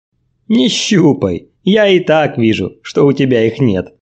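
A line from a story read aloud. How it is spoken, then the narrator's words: Young woman laughing. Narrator (Russian): продолжала смеяться девушка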